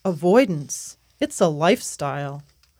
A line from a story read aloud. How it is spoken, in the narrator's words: affirms coolly